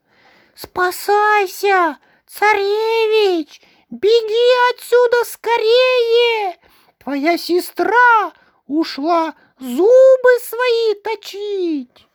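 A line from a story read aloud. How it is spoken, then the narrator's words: Little mouse, human voice. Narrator (Russian): мышонок говорит ему человеческим голосом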